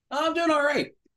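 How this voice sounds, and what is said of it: Yelling. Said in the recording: “Why are you yelling at me?”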